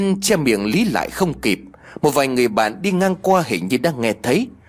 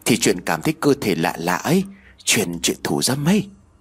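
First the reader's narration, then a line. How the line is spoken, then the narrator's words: Whisper. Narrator (Vietnamese): Tiên thì thầm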